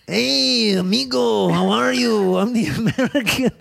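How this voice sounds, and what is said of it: Exaggerated put-on foreign accent. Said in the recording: “Do the accent. Do the Asian accent. ... that is not Asian. I'm almost positive that's not Asian.”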